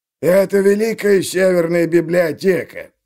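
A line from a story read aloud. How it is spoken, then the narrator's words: Creaky voice, gatekeeper. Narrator (Russian): проскрипел привратник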